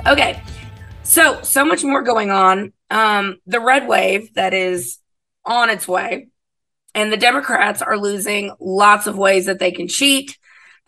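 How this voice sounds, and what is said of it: Crackly, craggly hoarse voice. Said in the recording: “as you can probably tell from my voice, it's a little crackly and craggly and, you know, very sexy”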